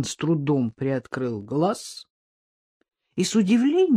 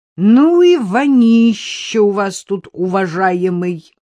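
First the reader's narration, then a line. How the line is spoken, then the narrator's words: Displeased woman's voice. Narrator (Russian): недовольный женский голос произнес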